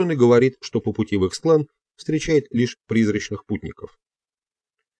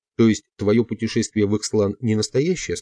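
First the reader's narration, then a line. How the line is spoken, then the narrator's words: Plain question. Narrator (Russian): спросил я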